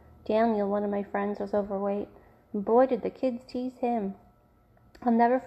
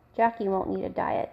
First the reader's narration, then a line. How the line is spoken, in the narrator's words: Dad chuckled